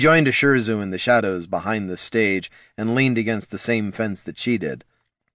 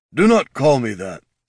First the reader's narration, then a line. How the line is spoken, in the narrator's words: he grumbled